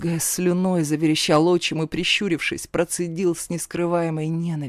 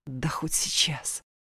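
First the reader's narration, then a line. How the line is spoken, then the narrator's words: Snapping hiss through teeth. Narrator (Russian): огрызнулась я и, стиснув зубы, прошипела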